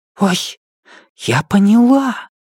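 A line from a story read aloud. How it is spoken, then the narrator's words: Whisper. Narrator (Russian): Дэн Линьё перешла на шепот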